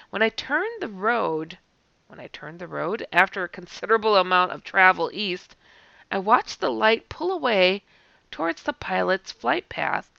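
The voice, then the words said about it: Hoarse, strained voice. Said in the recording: “I'm still losing my voice.”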